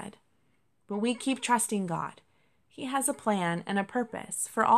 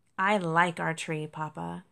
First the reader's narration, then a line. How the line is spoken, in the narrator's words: Cherry sighed